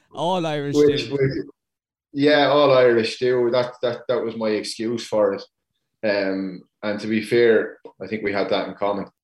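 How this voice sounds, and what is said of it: Irish Tipperary accent. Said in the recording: “the Tipperary accent”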